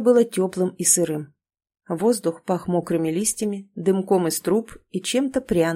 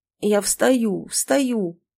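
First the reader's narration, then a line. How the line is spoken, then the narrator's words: Hoarse croak. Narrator (Russian): прохрипел Леша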